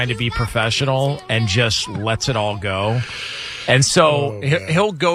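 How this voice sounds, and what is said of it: Usual voice. Nothing is said of it.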